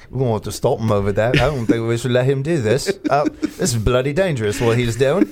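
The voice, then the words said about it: Put-on British accent. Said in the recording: “they all did this with a British accent.”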